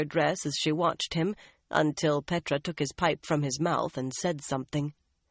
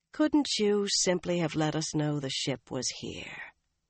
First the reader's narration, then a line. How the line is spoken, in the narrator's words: Nynaeve asked wearily